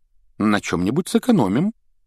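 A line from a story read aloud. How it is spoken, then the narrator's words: Uncertain. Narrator (Russian): неуверенно проговорила миссис Уизли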